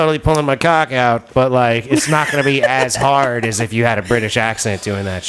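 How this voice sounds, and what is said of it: Usual voice. Nothing is said of it.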